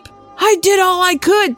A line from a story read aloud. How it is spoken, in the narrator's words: Mitch McConnell pleaded